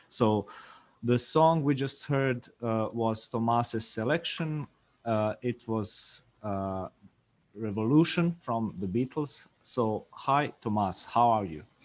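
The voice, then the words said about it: Smooth radio-style voice. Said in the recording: “You do have a nice radio voice, by the way. ... It sounds very smooth.”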